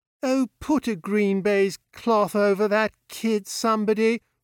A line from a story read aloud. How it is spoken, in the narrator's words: groaned Bob